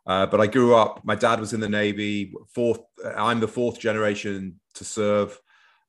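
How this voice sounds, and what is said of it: English accent. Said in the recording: “I grew up in England. You can tell from the accent that I'm not from these parts”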